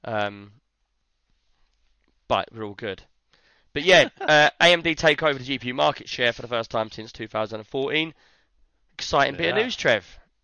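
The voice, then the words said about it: Soft, weak, lost voice. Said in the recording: “why my voice is so soft, it's because it's gone.”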